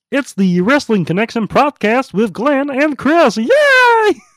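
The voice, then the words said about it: Kermit the Frog voice impression. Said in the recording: “I can do a good Kermit the Frog impression... in the voice... in Kermit's voice”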